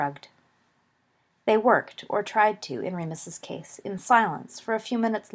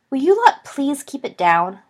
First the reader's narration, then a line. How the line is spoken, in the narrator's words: Lily snapped over the back of the sofa